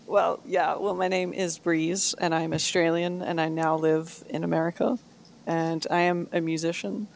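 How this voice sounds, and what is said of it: Australian accent. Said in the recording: “Australia too. I love the accent already ... You get a cool accent.”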